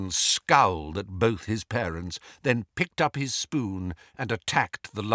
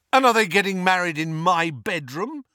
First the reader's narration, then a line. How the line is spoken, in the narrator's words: asked furiously